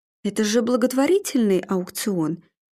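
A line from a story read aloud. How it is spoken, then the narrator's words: Soft objection. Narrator (Russian): мягко возразил Арнольд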